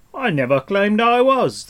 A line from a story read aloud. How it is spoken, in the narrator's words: the stranger shouted back